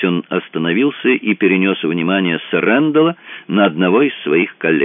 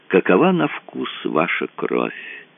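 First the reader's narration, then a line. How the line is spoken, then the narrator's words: Thoughtful. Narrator (Russian): добавил он задумчиво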